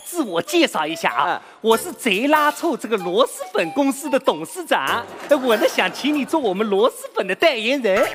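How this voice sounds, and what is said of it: Strong regional Chinese accent. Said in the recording (Chinese): “你这个口音跟产螺蛳粉那个地方好像不太搭嘎 ... 你不要管我的口音”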